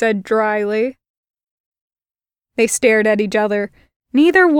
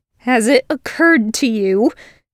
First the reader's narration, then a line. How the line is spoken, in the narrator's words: he snarled